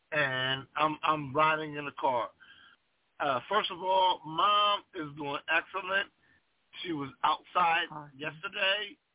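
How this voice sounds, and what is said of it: Hoarse voice. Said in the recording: “My voice is a bit hoarse.”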